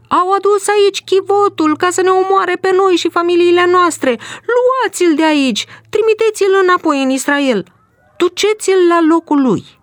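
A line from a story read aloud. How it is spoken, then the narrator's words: Shouted. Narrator (Romanian): au început să strige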